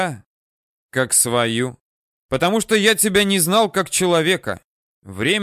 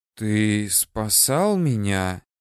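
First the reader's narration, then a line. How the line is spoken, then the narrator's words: Slow question. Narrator (Russian): медленно спросила воронушка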